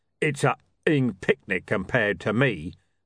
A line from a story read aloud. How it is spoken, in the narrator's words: rumbled Mr